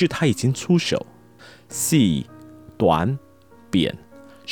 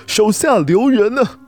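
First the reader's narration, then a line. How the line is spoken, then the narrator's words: Old voice calling out. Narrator (Chinese): 苍老的声音又叫了起来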